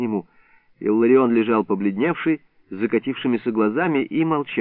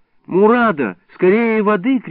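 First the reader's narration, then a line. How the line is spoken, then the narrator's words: Shout. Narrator (Russian): крикнул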